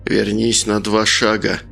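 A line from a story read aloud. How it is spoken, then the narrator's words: Through gritted teeth. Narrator (Russian): процедил Николай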